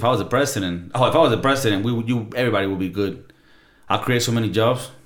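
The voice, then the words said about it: Slight foreign accent. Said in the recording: “I got a little accent”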